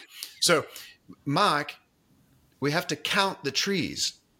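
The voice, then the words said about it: Poor imitation of South African accent. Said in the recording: “I'll do a horrible South African accent here.”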